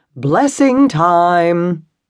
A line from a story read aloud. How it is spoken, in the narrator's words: called out